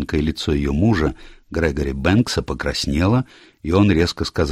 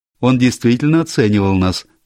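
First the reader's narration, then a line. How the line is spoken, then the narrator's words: Sudden laugh. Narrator (Russian): внезапно рассмеялась Сьюзен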